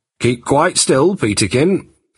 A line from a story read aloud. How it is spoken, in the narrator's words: said Jack urgently